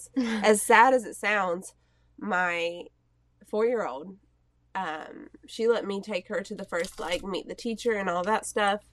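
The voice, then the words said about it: Hoarse, fading voice. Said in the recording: “I'm clearly losing my voice.”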